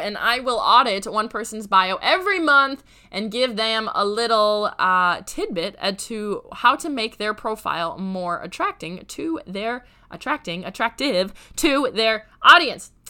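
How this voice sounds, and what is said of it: Raspy, hoarse voice. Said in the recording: “Please forgive my raspy voice, feeling a little bit like the Grim Reaper over here”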